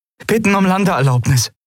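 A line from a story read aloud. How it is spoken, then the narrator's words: Calling out. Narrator (German): rief Andriel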